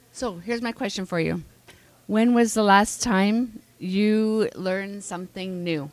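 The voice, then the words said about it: Strained, fading voice. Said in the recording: “I'm losing my voice, ... If it sounds weird, tell me.”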